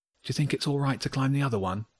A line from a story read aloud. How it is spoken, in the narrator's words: Wilf asked quietly